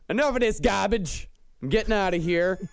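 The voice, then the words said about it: Put-on Indiana accent. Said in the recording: “That's the Indiana accent. Yeah. That's a good form of the Indiana accent.”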